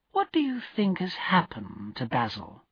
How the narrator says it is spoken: asked Dorian slowly

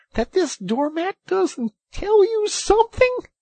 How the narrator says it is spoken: cried the excited Rat

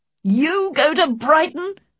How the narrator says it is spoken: cried her father

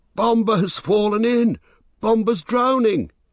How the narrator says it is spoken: he cried

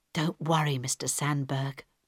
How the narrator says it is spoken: Harold whispered

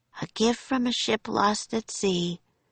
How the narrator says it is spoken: she said softly

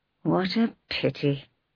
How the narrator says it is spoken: he sighed

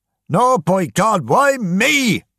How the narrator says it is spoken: shouted James Kelly

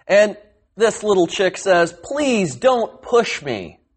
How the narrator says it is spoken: cried the little chick

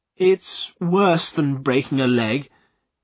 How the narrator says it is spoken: continued Godfrey miserably

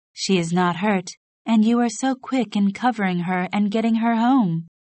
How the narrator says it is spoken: replied her mother cheerfully

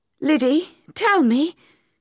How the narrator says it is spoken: said urgently

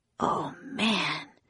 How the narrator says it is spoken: whispered Jack

